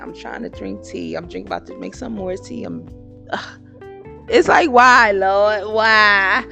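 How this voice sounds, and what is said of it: Hoarse, strained, fading voice. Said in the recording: “my voice is, I'm losing my voice. My throat been hurting since yesterday.”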